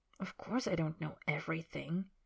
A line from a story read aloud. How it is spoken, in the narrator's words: Harry says quietly